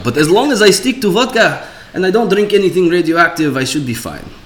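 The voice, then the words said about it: Put-on Russian accent. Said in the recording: “I thought the accent was so good that I didn't realize he was actually speaking Russian”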